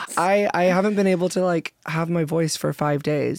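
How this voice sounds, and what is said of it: Very hoarse voice. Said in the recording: “I have a very hoarse voice ... Now I'm hearing it.”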